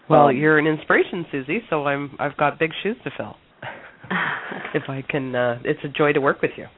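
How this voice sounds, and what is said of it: Slightly congested voice from a cold. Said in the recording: “I have a bit of a cold”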